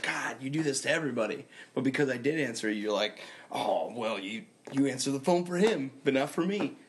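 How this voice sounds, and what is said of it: Impression of the other host. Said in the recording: “that was a great impression of me”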